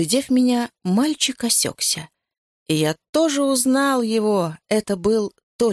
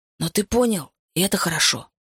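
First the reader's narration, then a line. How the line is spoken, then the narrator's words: Whispered. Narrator (Russian): шепнул я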